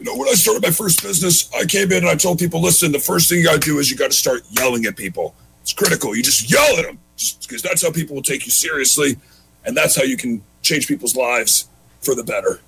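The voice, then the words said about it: Imitates another person's voice. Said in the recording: “impersonations ... come in with Tony Robbins”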